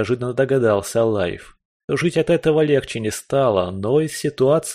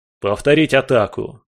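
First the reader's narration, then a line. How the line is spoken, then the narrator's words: Barked. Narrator (Russian): рявкнул он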